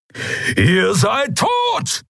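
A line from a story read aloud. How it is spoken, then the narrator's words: Thundering. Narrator (German): donnerte Keru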